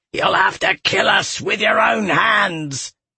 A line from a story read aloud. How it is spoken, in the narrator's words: Galathon bellowed